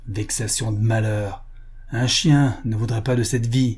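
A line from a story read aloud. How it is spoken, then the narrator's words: Disgusted grumble. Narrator (French): grommela avec une grimace de dégoût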